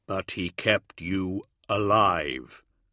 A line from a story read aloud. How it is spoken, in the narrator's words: said Dorn, his voice as flat and hard as a hammer falling on stone